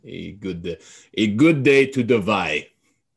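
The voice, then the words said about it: Put-on Russian accent. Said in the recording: “I don't really know if I can do a good Russian accent, but I'll try.”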